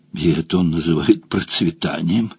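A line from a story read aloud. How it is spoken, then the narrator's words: Muttering. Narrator (Russian): пробормотала другая поганка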